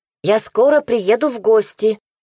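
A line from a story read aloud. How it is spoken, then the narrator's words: Tearful parting shout. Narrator (Russian): выкрикнула напоследок и утерла рукавом вырвавшиеся слезы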